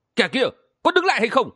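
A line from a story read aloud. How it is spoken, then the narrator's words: Loud shout. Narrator (Vietnamese): có tiếng quát lớn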